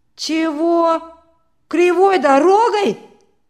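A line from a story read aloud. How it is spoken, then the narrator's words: Loud indignant outburst. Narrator (Russian): громко возмутился Петька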